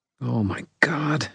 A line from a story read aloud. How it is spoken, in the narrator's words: she muttered